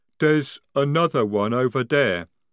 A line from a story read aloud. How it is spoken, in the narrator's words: rumbled Jade